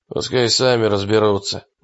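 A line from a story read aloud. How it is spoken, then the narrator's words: Grumble. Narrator (Russian): буркнул Питерс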